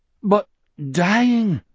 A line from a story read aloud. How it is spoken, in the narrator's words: Anders persisted, his eyes nakedly pleading now